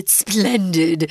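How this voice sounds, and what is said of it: Put-on British accent. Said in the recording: “I think the British folks sure like it ... when I say splendid, for some reason, this crazy accent comes out”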